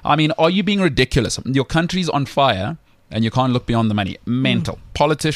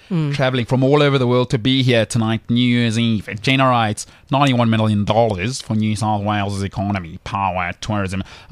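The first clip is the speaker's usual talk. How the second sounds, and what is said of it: Weak attempt at Australian accent. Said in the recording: “Can't do an Aussie accent.”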